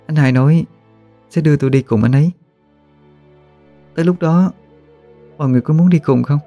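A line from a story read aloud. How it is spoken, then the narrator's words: Smiling, proud. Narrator (Vietnamese): mỉm cười đầy tự hào nói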